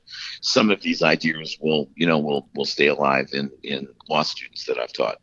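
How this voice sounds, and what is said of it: Voice affected by a cold. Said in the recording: “I apologize for my voice. ... I think I brought a cold back with me.”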